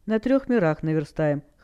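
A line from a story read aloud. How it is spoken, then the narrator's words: Demon's smirking grunt. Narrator (Russian): хмыкнул бес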